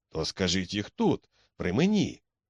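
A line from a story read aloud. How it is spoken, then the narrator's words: Exclaimed. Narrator (Ukrainian): вигукнув Макмердо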